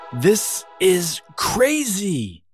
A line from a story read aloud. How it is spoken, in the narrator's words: yelled Abigail